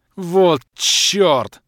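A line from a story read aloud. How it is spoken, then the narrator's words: Full-voiced howl. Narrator (Russian): взвыл я во весь голос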